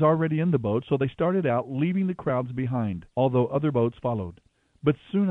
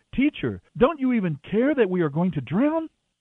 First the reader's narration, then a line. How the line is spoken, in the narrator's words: Frantically, shouting